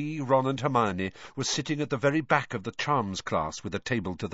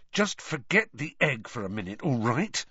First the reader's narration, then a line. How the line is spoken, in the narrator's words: Harry hissed